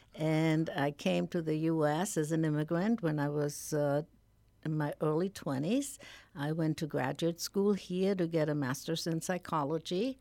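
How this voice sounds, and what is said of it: German accent. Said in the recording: “as you can hear by my accent, originally I'm from Germany.”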